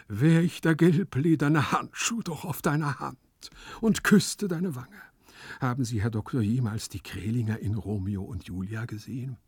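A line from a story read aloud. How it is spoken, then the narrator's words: Sigh. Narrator (German): seufzte Gumpelino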